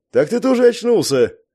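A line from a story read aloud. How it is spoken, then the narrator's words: Joyful blurt. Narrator (Russian): радостно выпалил я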